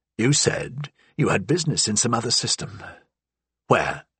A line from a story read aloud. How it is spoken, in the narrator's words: managed to croak